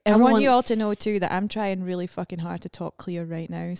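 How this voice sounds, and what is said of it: Scottish accent, slow careful speech. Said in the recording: “Fucking atrocious Scottish accent ... I'm talking slower than I normally would. I'm trying to pronounce things real fucking hard.”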